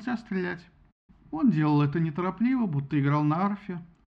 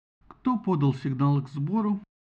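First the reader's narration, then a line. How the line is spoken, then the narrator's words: Gloomy question. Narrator (Russian): мрачно спросил Агамемнон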